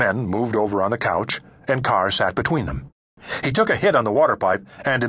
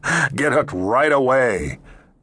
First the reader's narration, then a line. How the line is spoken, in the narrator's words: Carr laughed